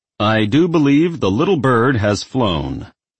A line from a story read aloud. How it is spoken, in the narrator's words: his father barked loudly enough for everyone to hear